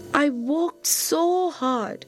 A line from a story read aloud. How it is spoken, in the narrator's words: she said sadly